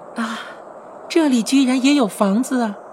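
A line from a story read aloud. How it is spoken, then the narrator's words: Exclaiming in wonder. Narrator (Chinese): 千寻感叹道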